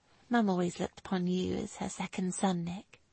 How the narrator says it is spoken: she told him softly

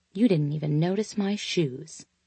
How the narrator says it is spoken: mumbling

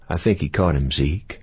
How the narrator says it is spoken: Bigfoot said in a kindly tone

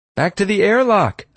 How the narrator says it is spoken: I yelled

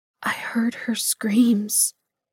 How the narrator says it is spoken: she whispered into the silence

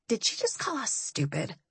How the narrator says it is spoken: Kat whispered to Bones

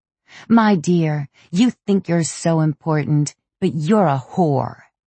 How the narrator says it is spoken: she yelled at her

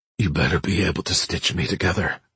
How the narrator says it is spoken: she muttered

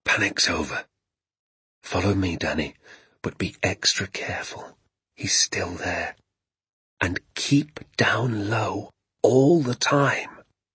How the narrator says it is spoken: my father whisper

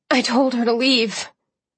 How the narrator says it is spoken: I said hoarsely

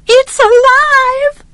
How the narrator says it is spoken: she screamed

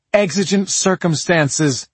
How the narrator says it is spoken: she yelled

